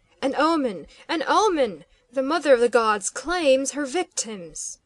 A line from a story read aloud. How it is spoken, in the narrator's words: he cried